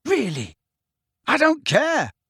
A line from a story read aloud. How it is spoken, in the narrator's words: Harry yelled at them